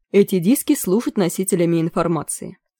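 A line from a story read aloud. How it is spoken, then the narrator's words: Plain. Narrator (Russian): сказал Маккархи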